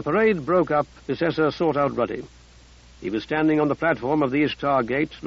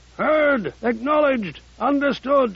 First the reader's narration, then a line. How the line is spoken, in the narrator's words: Casey Offic bellowed